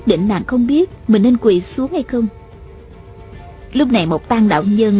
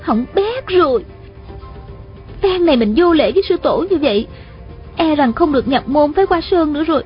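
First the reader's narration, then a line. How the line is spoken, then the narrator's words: Panicked, ashamed inner cry. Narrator (Vietnamese): Hạ Thiết Thủ vừa hoảng sợ vừa xấu hổ, thầm la lên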